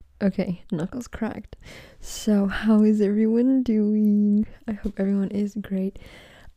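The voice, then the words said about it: Very excited voice. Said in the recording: “As you can probably tell from my voice, I am very excited.”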